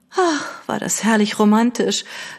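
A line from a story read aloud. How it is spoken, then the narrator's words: Sighing. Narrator (German): seufzte Lady Catherine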